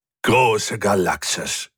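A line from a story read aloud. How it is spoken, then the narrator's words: Gloating growl. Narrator (German): knurrte Hubert, mit nicht wenig Schadenfreude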